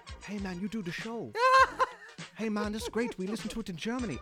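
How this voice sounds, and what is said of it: Put-on German accent. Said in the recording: “That's a good accent, too.”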